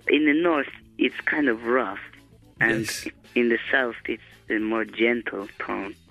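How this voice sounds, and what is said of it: Italian-accented English. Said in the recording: “What accent have you got? ... Italian.”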